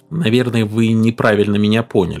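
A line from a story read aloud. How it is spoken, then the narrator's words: Plain. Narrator (Russian): сказал Майкил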